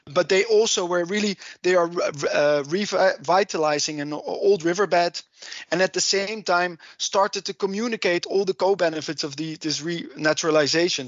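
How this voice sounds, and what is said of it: Heavy Dutch accent. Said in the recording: “my heavy Dutch accent”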